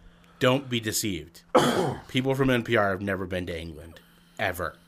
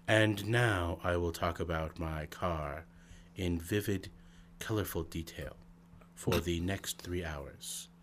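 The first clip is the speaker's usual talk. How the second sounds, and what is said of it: Low, whispery radio-host voice. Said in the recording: “talking like this, with a low, whispery voice, is the way to sound intelligent”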